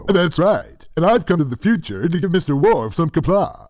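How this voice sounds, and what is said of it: Impression of Captain Sulu. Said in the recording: “You're Captain Sulu.”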